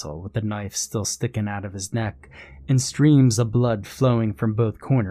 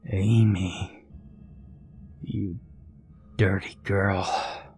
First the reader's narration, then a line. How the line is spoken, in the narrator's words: he hissed